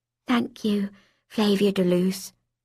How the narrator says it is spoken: whispered in my ear, as if we had been friends forever

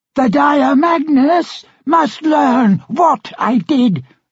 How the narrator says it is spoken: the Countess shouted

